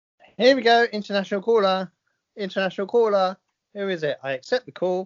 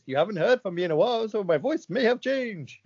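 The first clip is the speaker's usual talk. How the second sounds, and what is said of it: Imitates another person's voice. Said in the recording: “It's Yuri Geller to say goodbye.”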